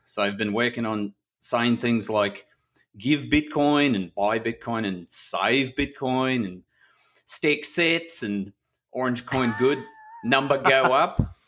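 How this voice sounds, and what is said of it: Put-on New Zealand-like accent. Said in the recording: “your accent is, it's sounding very close to the Kiwi New Zealander accent.”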